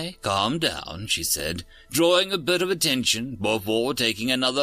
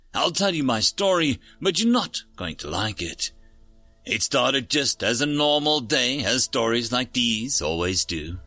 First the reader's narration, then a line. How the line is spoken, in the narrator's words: she said, eliciting another chuckle